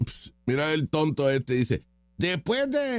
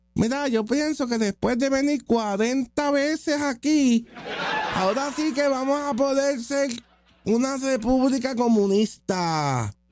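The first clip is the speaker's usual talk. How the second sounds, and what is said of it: Mocking imitation of a speech accent. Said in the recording (Spanish): “Voy a poner el acento de seguir.”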